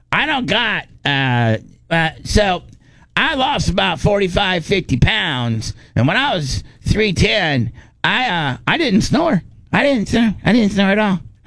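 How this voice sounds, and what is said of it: Impression of Gene Lasker. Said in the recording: “doing my Gene Lasker impersonation ... Pretty good.”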